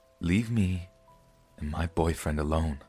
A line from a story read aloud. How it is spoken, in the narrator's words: I said very quietly